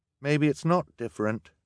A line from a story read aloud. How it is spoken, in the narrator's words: Violet said sadly